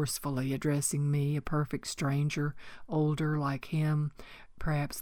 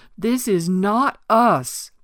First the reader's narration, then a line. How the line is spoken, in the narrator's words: cried out